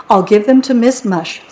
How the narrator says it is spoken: said Lewis

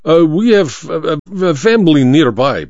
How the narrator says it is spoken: Baba stammered

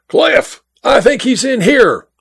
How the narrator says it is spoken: yelled

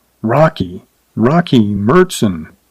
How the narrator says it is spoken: frowned unbelievably, then murmured darkly

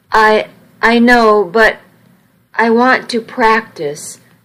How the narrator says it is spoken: I said hesitantly

